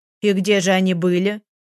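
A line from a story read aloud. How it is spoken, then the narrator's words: Displeased question. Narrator (Russian): Недовольным тоном поинтересовалась Катерина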